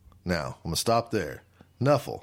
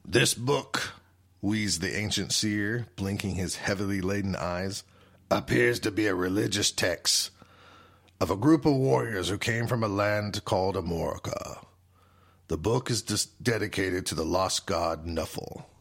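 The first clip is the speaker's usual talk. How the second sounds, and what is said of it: Dwarf character voice. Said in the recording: “I'm going to try to do a little dwarf voice.”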